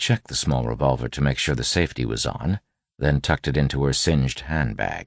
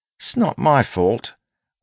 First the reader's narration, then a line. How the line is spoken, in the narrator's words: Wayne grumbled